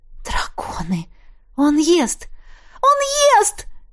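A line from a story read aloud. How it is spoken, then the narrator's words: Shriek. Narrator (Russian): взвизгнула я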